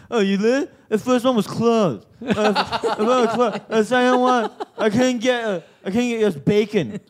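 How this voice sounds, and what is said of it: Put-on local suburban Australian accent. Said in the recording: “That's a classic Maribyrnong accent as well.”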